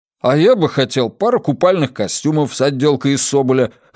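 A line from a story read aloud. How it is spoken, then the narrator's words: Wry snort. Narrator (Russian): хмыкнул Джеспер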